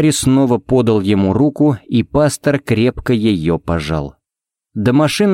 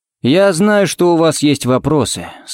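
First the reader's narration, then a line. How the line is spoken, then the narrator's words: Muffled, hollow voice. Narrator (Russian): сказал он глухо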